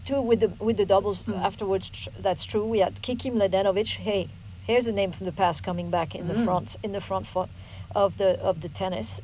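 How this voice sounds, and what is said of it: French accent in English. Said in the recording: “You know, this accent. We don't have double E's in French.”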